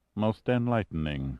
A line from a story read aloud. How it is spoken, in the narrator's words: Massard purred